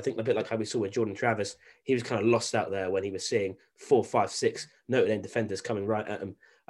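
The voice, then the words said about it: British accent. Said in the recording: “my very British accent”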